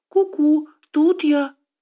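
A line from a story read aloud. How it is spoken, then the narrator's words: Squeaky little voice. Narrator (Russian): пропищал пряничек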